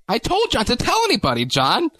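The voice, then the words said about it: Fake British accent impression. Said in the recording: “great accent, by the way... it's actually a fake British accent she uses.”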